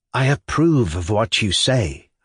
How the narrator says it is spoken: I said, speaking as calmly as possible on purpose, though I was very much afraid for him

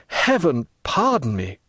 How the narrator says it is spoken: cried Edmund

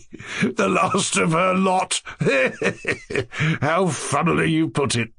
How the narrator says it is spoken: chuckled the official

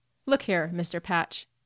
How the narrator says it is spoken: said Blockman, evenly and without changing his expression

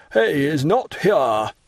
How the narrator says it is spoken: the brigadier exclaim in a loud voice to the two gendarmes

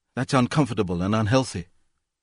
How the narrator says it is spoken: said in a weak voice

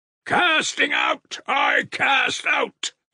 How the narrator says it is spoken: he roared again

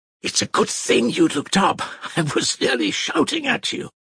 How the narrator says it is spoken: Mitya said in a joyful, hurried whisper

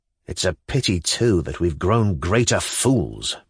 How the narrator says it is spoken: muttered Stavrogin

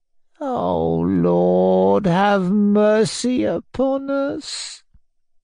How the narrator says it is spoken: he moaned in conclusion, in quite a different voice

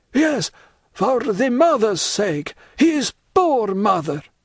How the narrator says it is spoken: cried the Major

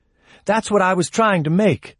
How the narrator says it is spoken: she cried

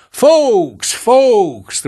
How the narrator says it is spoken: the proprietor shouted

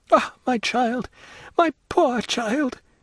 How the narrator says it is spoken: cried the baroness, stifling her sobs in her handkerchief

